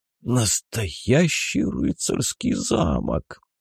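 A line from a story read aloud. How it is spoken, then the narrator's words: Wheezing old man. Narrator (Russian): просипел пенсионер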